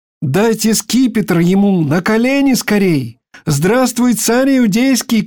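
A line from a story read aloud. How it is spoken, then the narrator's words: Crowd shouting. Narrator (Russian): кричали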